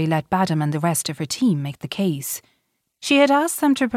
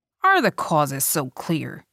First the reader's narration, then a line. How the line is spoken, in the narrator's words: asked Jane Yablonsky sharply